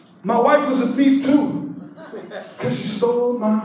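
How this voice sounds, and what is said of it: Usual voice. Nothing is said of it.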